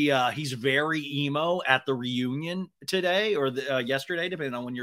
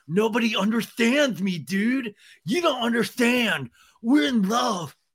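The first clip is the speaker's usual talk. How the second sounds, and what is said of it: Emo imitation of another person's voice. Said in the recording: “this is my Tom Sandoval emo of like”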